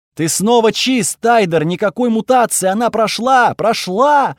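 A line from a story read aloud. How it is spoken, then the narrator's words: Half-monster shouting while running. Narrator (Russian): Афена кричала и бежала ко мне, сама наполовину монстр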